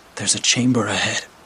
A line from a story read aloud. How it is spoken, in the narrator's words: I whispered to Mike